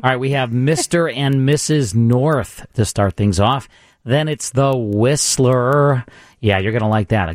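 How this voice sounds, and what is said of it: Hoarse voice from laryngitis. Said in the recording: “I have laryngitis”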